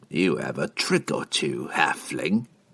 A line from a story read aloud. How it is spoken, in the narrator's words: he chuckled